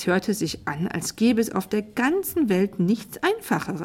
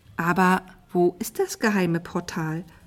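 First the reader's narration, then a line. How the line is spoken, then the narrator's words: Plain question. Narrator (German): fragte Tina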